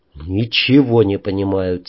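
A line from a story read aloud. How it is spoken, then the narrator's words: Quiet. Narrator (Russian): тихо сказал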